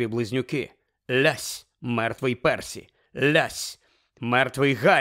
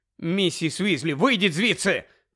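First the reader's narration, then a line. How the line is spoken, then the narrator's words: Shouted. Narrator (Ukrainian): крикнув Гаррі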